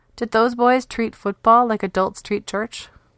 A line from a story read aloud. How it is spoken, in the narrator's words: She giggled to herself, excited